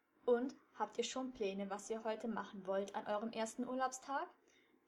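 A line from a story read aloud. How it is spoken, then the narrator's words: Plain question. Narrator (German): fragte Miss Madigan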